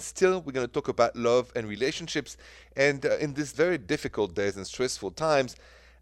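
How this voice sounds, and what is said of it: French accent. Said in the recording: “still the French accent.”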